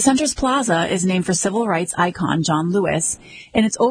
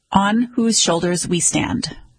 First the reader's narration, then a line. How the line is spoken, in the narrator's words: the center says